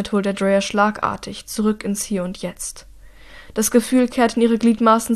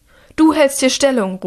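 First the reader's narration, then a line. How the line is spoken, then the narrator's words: Called out. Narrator (German): ruft sie den einen zu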